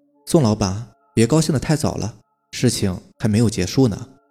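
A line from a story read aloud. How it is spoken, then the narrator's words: Cold. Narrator (Chinese): 李小林 冷冷地说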